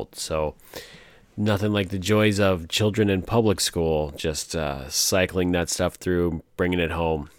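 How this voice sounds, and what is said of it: Raspy, hoarse voice. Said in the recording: “awesomely raspy voice here that I came down with yet another cold”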